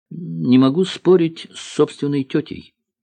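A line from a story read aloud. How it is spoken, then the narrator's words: Plain. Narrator (Russian): ответил профессор Селезнев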